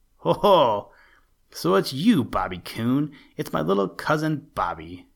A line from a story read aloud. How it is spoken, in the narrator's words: exclaimed the deep, grumbly, rumbly voice of Buster Bear, followed by a chuckle